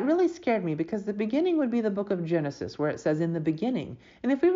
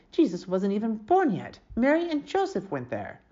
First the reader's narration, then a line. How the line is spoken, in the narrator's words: Annis Wendelkin grumbled